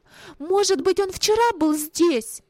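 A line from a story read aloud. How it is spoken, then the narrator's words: Sudden exclamation. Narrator (Russian): Вилли ... вдруг опять воскликнул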